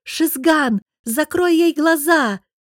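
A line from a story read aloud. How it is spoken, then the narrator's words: Shouted. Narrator (Russian): крикнула Софья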